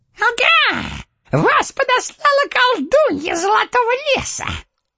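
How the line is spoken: Gloating squeak. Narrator (Russian): злорадно пропищал человечек

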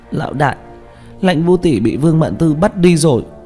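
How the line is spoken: Crying. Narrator (Vietnamese): Tranh Tử khóc lóc

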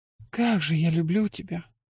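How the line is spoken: Breathless whisper against lips. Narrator (Russian): выдохнула я ему в губы

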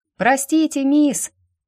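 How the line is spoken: Boy shouting over shoulder. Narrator (Russian): Не оборачиваясь, прокричал парнишка

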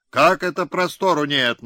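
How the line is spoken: Scowling bark. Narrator (Russian): насупясь гаркнул Пустобаев

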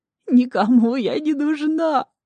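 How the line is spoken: Sudden howl. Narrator (Russian): вдруг взвыла миссис Випс

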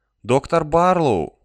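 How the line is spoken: Hesitant address. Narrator (Russian): неуверенно обратилась Дерин

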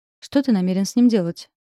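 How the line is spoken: Deliberately indifferent question. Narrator (Russian): спросила как можно более безразличным тоном

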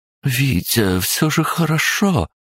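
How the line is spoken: Timid whisper. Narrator (Russian): робко прошептала Анна Викторовна

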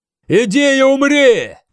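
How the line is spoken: Shouted. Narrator (Russian): крикнул Осферт

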